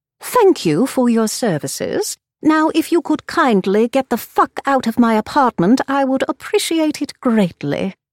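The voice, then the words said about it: Fake British accent. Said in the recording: “I used the same fake British accent”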